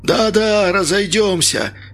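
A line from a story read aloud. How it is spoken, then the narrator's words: Hoarse confirmation. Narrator (Russian): подтвердил хриплый голос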